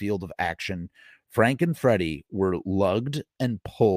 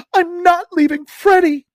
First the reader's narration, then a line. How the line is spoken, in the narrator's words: Tina sobbed